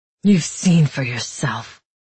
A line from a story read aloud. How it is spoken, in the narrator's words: Matthias replied bitterly